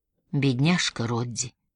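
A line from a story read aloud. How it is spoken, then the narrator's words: Soft, gentle. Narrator (Russian): мягко проговорила Элинор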